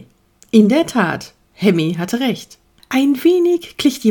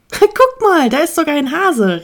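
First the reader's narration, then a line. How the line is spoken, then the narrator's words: Called out. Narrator (German): rief Igor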